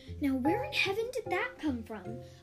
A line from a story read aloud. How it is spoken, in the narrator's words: Auntie Viv gasped